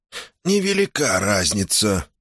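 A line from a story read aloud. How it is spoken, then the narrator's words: Hoarse laugh. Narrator (Russian): хрипло рассмеялся Синкривер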